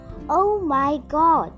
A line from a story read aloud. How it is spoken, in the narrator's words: exclaimed Lily